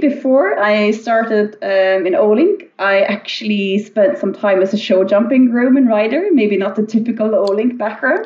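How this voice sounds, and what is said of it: Slight Irish accent. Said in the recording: “in Ireland, which maybe you hear a bit on the accent. I still have a bit of a touch of that.”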